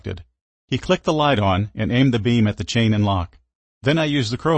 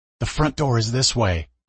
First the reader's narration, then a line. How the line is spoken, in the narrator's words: I whispered